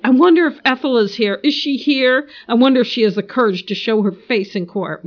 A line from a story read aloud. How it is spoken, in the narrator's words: Bob yelled